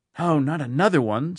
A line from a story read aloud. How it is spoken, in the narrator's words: somebody whispered